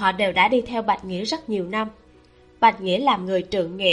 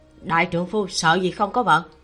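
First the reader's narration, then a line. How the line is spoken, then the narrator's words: Quiet scolding retort. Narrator (Vietnamese): Có người cũng nhỏ giọng mắng trả về một câu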